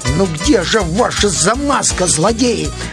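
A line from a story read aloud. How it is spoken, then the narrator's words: Grumbled. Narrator (Russian): проворчал он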